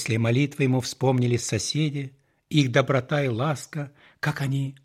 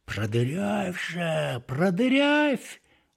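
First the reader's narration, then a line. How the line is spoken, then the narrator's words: Distant whispering snake. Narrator (Russian): уже издалека шептал какой-то змей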